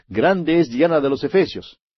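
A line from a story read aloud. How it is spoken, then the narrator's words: Shouting. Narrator (Spanish): gritando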